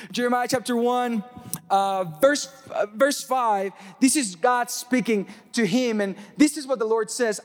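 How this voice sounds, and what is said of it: Mexican accent. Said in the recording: “I'm Mexican and I have an accent”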